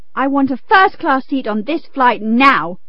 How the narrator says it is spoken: demanded the man angrily

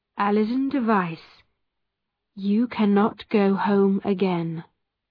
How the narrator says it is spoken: Roger Noel said slowly

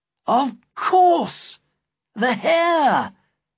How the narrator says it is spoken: Sapt cried

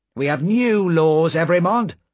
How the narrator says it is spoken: said sharply

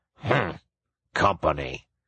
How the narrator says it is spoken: The badger grunted

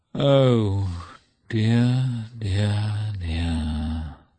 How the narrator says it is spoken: groaned, recalling what had happened

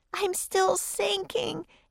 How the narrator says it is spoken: Annie wailed

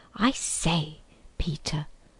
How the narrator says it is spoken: whispered Edmund

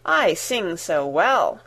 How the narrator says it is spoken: said he

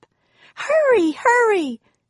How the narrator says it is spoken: screamed Annie

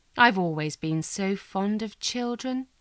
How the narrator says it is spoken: said sadly

